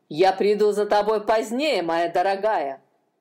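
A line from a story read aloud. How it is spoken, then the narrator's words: Spiteful. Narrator (Russian): злобно сказал один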